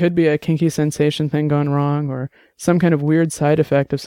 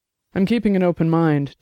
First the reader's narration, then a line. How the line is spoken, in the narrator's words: Dex said